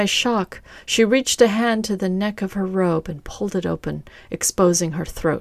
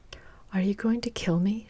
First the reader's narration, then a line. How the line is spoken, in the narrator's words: She said softly